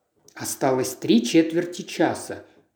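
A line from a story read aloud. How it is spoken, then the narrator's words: Muttering. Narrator (Russian): пробормотал он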